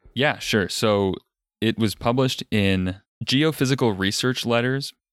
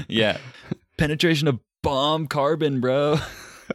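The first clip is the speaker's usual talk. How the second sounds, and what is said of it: Surfer dude voice. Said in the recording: “reread that as like in like your best surfer voice”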